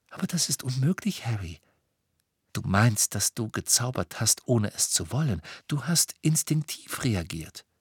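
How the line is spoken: Gentle. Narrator (German): sagte Hermine sanft

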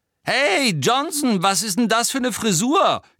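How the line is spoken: Shrieking from below. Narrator (German): kreischte Pansy Parkinson von unten herauf

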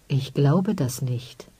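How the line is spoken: Dangerously quiet. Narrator (German): sagte er gefährlich leise

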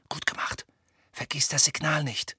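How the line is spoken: Whispered. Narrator (German): flüsterte Hermine

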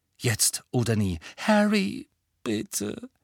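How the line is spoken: Weak pleading. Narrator (German): flehte Hermine matt

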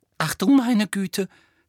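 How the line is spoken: Sudden breathless exclamation. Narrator (German): stieß Hermine plötzlich atemlos hervor

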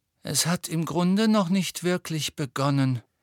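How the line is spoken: Gloomy sigh. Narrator (German): seufzte Hermine düster

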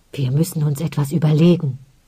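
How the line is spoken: Whispering. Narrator (German): flüsterte Onnen schließlich

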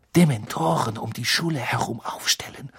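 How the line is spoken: Murmuring. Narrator (German): murmelte sie

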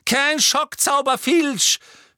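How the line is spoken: Angry shout. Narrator (German): schrie Umbridge zornig

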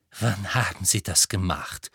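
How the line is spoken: Slightly trembling voice. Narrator (German): fragte mit leicht zitternder Stimme

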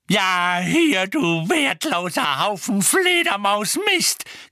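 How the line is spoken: Shrieked. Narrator (German): kreischte Mrs

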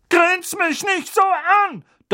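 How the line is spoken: Thundering. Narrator (German): donnerte Tante Magda

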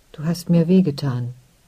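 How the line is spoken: Soft spoken. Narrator (German): sagte leise

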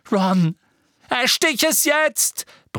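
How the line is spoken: Shouting. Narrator (German): brüllte Harry

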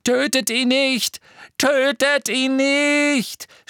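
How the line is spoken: Shouted. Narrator (German): schrie Malfoy Crabbe und Goyle zu

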